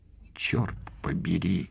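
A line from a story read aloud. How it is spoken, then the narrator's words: Astonished muttering. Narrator (Russian): изумленно пробормотала Сингла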